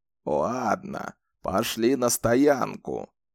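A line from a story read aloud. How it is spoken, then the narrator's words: Grumble. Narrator (Russian): проворчал Зет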